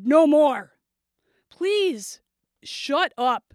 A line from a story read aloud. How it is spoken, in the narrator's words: Mike's body quaked, and he shouted